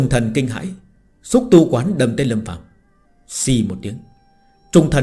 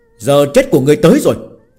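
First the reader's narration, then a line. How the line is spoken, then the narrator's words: Barked. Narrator (Vietnamese): quát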